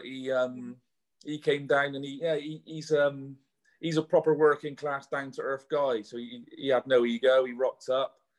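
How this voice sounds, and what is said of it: Bristol accent with slight Welsh twang. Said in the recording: “Bristol. Okay, I couldn't work out your accent. ... There's a bit of like a Welsh twang there ... Bristol born and bred.”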